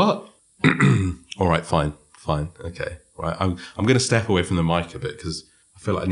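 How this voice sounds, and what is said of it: Usual voice. Nothing is said of it.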